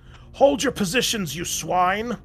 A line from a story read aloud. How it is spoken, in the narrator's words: roared Block